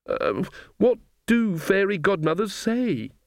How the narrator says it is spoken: she wailed

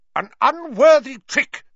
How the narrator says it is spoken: she was shouting

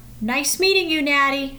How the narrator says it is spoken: Kathy called out

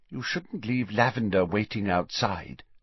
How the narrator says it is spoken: said quietly

